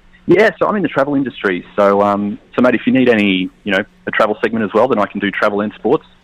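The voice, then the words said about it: Australian accent. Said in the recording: “that's an Australian accent there”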